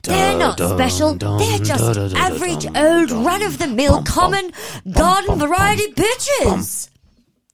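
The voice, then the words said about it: Imitates another person's voice. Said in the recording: “my little impression of Anjali”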